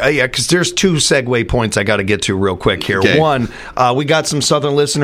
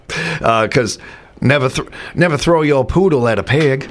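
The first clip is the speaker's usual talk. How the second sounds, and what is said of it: Put-on Southern US accent. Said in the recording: “my favorite accent to do is a Southern accent ... are you hearing a Southern accent when I say them?”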